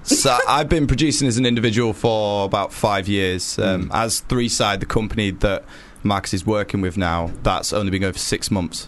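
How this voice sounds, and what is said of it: Yorkshire English accent. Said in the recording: “Your accent, by the way. ... Yorkshire ... Near Leeds ... Skipton”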